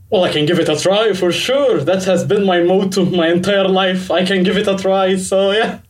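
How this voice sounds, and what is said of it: Egyptian accent, low voice. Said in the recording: “my accent is very Egyptian ... you've got a very nice low voice”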